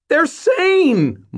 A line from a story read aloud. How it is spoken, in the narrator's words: Mort shouted back